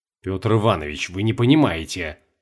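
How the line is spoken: Hissed. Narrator (Russian): зашипел Сергей

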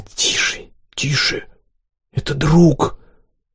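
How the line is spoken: Whispering. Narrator (Russian): Карина зашептала

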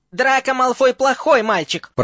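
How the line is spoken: Angry squeak. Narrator (Russian): пропищал Добби зло

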